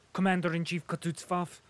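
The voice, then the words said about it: Quick speech, harsh German accent. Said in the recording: “speaking quickly with a harsh German accent”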